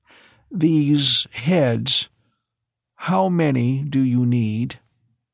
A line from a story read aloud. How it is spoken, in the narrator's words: Horley began in a thin, stretched voice